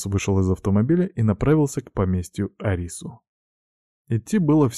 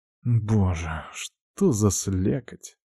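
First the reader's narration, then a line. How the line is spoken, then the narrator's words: Discontented grumble. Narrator (Russian): он недовольно бурчал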